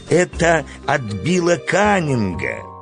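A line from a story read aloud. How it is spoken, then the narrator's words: Joyful exclamation, farmer. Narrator (Russian): фермер радостно воскликнул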